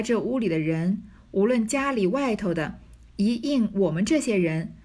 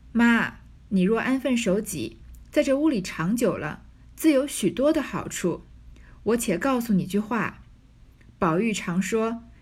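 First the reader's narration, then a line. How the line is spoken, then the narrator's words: Laughing. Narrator (Chinese): 春燕笑道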